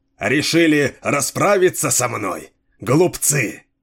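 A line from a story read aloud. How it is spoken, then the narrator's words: Convulsive laughter. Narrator (Russian): Зашелся в хохоте пророк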